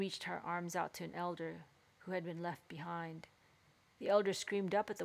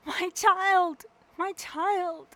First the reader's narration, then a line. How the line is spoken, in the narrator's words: she cried